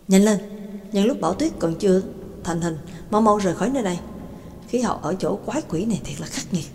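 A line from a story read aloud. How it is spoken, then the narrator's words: Muttering. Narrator (Vietnamese): McKin lẩm bẩm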